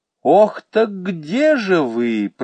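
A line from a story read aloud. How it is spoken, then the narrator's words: Honeyed drawl. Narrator (Russian): протянул медовым голосом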